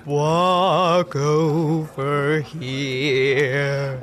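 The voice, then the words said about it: Deep, dirge-like siren voice. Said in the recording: “deep voice ... more dirge-like”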